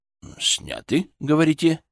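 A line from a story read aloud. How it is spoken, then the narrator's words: Skeptical grunt. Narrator (Russian): Юрист хмыкнул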